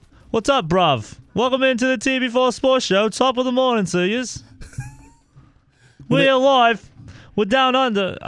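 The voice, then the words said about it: Put-on English shifting to Australian accent. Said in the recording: “I went from like an English to like an Australian accent.”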